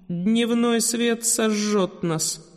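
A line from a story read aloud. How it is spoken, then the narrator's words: Moan. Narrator (Russian): простонала Каролина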